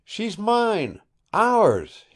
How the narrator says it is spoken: he cried boyishly

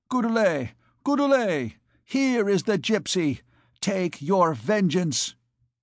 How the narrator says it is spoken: he cried in a loud voice

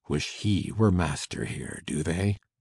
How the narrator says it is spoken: Henchard murmured

